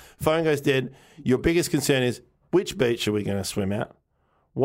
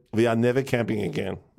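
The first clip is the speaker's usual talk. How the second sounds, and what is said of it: Put-on Dutch accent. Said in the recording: “I'm Dutch. Okay. I'm allowed to do the accent... She talks like this.”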